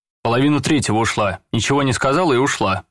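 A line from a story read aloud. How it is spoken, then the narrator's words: Plain. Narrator (Russian): сказал муж-мент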